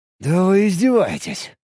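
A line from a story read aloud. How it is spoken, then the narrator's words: Breathless exclamation. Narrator (Russian): выдохнул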